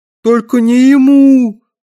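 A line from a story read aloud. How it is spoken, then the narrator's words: Wailed. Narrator (Russian): взвыл Дрэнк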